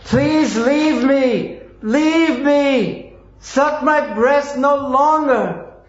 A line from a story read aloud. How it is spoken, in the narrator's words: she cried very loudly again and again